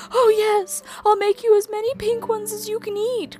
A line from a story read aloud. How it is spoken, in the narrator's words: cried